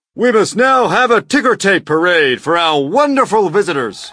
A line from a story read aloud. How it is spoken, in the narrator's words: the mayor shouted